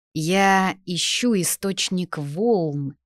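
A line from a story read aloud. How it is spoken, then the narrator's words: Plain. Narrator (Russian): сказал он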